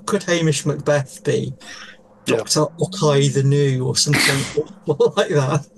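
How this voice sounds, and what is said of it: Put-on Scottish accent. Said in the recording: “Don't do the accent ... doing an impersonation of a Scots accent”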